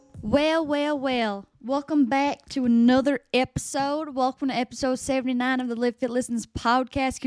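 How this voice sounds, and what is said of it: Put-on Southern American accent. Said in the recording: “I was not expecting her to be from the South. That is if that was a convincing enough Southern accent.”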